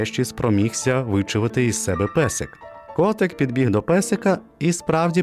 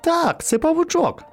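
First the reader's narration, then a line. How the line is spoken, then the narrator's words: Exclaiming. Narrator (Ukrainian): вигукнув він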